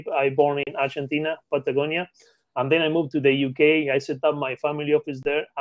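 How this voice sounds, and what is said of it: Non-native English speaker accent. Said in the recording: “as you can catch my accent, I'm not an English native.”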